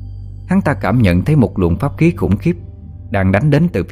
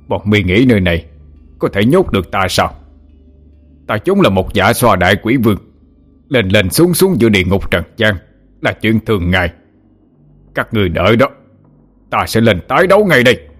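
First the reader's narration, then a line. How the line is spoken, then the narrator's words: Frenzied roar. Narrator (Vietnamese): hắn gầm lên điên dại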